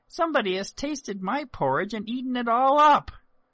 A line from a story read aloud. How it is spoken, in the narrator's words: the little bear piped